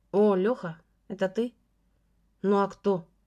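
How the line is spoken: Rude reply. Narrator (Russian): грубо ответил Леша

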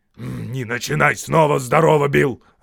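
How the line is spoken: Snapping retort. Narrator (Russian): огрызнулся он

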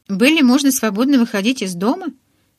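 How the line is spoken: Joyful question. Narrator (Russian): радостно спросил Эдвард

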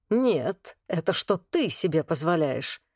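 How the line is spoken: Low menacing growl. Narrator (Russian): рыкнул Влад, низкий угрожающий голос

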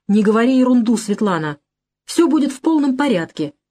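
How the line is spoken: Sharp reply. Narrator (Russian): резко ответил я

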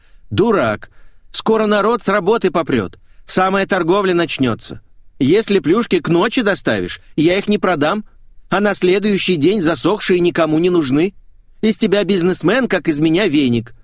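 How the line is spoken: Furious yell. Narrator (Russian): Лара не успокаивалась и в конце концов заорала

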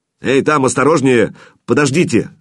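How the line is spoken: Shouting. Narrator (Russian): закричал Федор

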